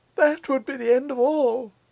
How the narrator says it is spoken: faltered the artist

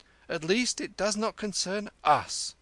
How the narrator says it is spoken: a man cried

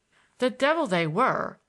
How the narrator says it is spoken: I exclaimed irascibly

